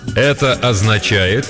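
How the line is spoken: Loud and slow. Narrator (Russian): громко и медленно произносит он

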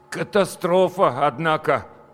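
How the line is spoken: Forced, strained utterance. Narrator (Russian): выдавил из себя Петя

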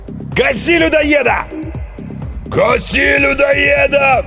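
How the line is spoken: Roaring crowd. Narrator (Russian): взревела толпа

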